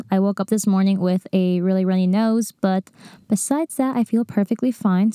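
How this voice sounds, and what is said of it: Slightly nasal, congested voice. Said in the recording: “I sound a little nasally, ... I think I'm catching a bit of a cold.”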